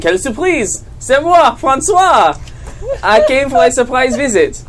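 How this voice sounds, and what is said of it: Put-on French accent. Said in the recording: “In a French accent.”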